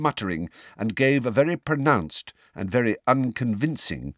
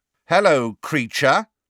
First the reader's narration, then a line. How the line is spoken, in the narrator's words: said Fred very loudly